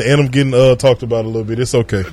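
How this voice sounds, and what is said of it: Rough, raspy voice. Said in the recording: “I'm a little rough and raspy ... My voice is not prepared ... I'll sound a whole lot better”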